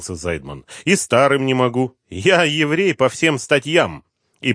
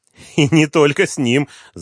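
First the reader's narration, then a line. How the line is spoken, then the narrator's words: Laughing. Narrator (Russian): засмеялся Зайдман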